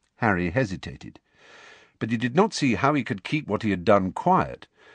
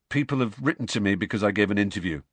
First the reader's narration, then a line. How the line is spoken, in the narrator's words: said Harry